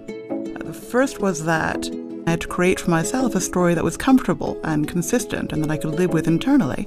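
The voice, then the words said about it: Affected proper English accent. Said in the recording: “this accent I have, I did not come by accident. ... The accent is completely fake ... the ridiculous accent ... a fairly well-mannered, not excitable English girl”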